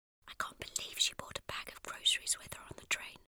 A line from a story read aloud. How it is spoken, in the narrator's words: whispered